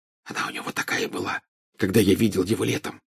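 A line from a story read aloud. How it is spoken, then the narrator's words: Whisper in ear. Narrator (Russian): зашептал Гарри на ухо Гермионе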